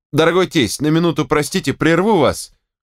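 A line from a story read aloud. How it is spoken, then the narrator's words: Desperate outcry. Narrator (Russian): Он выкрикнул это так отчаянно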